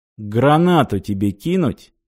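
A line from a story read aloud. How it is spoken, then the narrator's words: Calm offer. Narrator (Russian): спокойно предложил Грик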